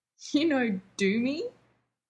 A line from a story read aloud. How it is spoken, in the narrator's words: Shepherd was laughing